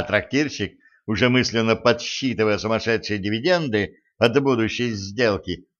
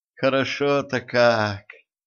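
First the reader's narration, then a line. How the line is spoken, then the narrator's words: Blissful moan. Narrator (Russian): с наслаждением простонала принцесса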